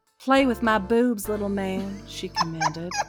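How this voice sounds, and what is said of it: Put-on Southern US accent. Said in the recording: “a little southern accent”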